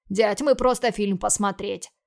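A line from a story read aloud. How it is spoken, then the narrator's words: Defensive, justifying. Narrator (Russian): Начал оправдываться Антон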